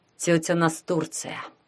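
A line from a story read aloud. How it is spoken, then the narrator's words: Muttered in recognition. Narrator (Russian): пробормотал узнавший ее Ванька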